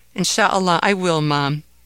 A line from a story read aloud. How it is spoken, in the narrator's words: said Ahmed